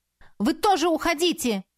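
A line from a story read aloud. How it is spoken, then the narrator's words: Shout. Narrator (Russian): крикнула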